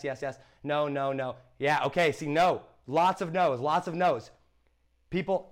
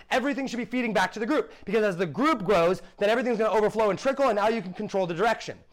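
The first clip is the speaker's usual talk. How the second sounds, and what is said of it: Loud, yelling delivery. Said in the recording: “the mic is a bit loud. Okay, sorry, I'm yelling a little bit.”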